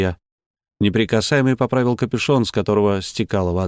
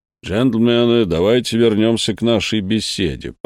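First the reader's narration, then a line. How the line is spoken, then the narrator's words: Grumbled. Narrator (Russian): проворчал Жерар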